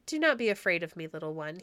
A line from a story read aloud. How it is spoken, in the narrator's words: he said kindly